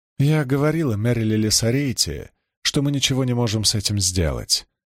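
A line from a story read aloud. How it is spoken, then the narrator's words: Calm. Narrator (Russian): спокойно произнесла она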